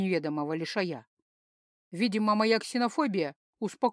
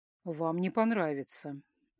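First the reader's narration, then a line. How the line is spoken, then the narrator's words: Sighing. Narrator (Russian): вздохнул инопланетянин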